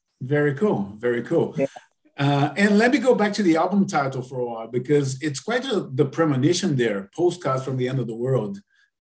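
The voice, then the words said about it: Brazilian accent mixed with Canadian. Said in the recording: “I thought I'd recognize the accent. My wife is Brazilian. ... It doesn't sound like a Toronto accent. ... It's a mix.”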